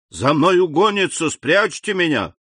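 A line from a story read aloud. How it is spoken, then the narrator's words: Shouting. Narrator (Russian): он крикнул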